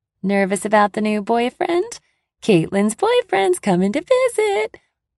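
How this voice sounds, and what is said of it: Loud obnoxious sing-song voice. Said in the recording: “She sings it loud in an obnoxious voice.”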